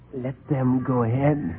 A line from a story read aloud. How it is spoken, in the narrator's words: he whispered